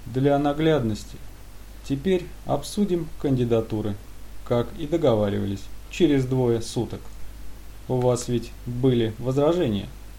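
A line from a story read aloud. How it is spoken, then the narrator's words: Sudden, dry artificial voice. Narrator (Russian): Искусственный собеседник вдруг встрепенулся и сухо сказал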